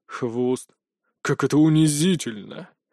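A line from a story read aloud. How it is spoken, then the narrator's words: Exhaled, disgusted. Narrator (Russian): выдохнул Анубис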